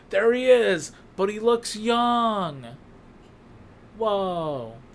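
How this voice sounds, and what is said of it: Keanu Reeves impression. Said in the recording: “my Keanu Reeves impression ... It was good. It was okay. He was alright ... They're terrible. I'm not good at impressions.”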